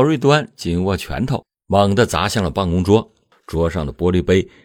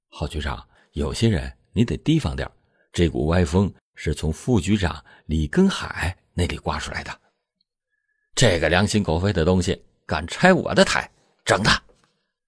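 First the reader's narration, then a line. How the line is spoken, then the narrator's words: Low voice. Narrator (Chinese): 他才低声的说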